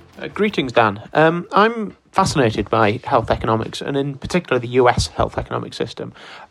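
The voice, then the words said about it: British accent. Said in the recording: “as you may have guessed from the accent, I'm British”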